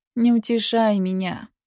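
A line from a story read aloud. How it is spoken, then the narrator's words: Gloomy objection. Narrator (Russian): уныло возразила я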